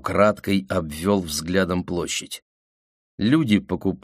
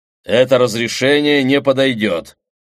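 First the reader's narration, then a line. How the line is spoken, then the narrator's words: Loud and stern. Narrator (Russian): громко и сурово сказал я, так, чтобы вокруг услышали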